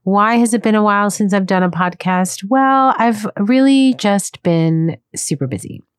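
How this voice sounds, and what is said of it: Voice slightly unwell. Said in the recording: “I'm slightly under the weather, so my voice isn't what it normally is.”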